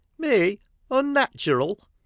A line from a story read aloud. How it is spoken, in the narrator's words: cried poor old Mrs